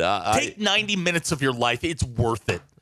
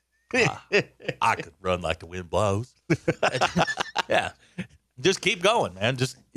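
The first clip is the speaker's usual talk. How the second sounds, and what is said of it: Forrest Gump character impression. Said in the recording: “is that his best impression, his Forrest Gump? It's pretty good.”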